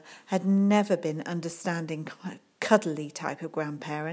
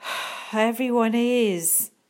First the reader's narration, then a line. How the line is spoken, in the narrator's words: sighed Sophie